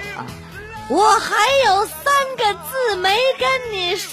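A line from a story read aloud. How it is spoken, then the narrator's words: Loud, nervous courage. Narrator (Chinese): 男孩鼓起勇气，大声说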